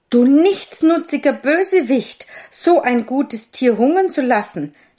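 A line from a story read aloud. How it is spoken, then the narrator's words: Angry shout. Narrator (German): schrie der Schneider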